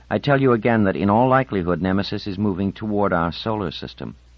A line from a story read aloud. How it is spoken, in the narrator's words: said raising her voice